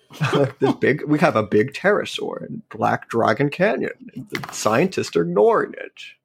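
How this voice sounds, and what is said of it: Imitates another person's voice, badly. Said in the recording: “i can't do a ken ham accent ... That's a really bad Ken Ham uh, impression.”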